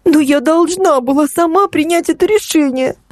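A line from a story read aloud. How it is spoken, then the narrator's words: Sobbing. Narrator (Russian): снова всхлипнула Ксюша, пытаясь успокоиться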